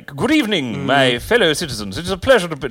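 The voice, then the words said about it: Exaggerated posh English accent. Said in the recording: “like, really English it up”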